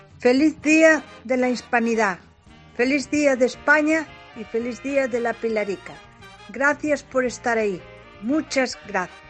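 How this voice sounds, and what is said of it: Slight Galician Spanish accent. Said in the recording (Spanish): “me ha dado que tenía acento gallego ... Un poquito, ¿verdad? ... Se ha quedado un poco gallego.”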